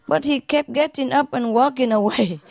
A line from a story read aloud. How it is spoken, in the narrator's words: one of them sobbed